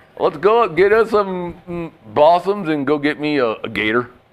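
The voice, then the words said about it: Put-on Kentucky accent. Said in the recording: “I got a Kentucky.”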